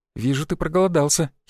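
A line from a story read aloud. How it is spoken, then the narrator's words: Giggling. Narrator (Russian): хихикнула красавица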